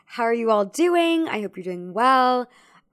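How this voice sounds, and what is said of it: Voice cracking. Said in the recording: “my voice just cracked there”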